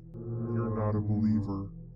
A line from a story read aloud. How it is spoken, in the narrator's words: the demon growled